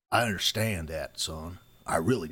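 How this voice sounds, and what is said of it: Imitated East Texan character voice. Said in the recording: “talks like an East Texan... I love accent.”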